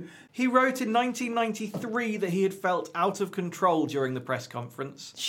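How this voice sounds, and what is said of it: Usual voice. Nothing is said of it.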